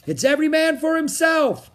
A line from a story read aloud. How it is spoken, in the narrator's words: the captain shouted to all of his crew